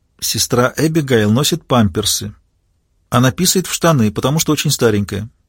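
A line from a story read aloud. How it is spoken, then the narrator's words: Said quietly. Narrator (Russian): Нони ... тихо произнесла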